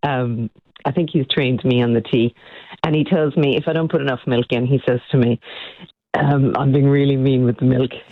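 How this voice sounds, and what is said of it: Irish accent. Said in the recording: “this beautiful Irish accent”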